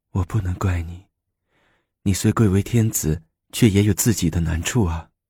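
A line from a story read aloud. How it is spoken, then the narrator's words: Tender, loving. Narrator (Chinese): 武则天 万分疼爱的说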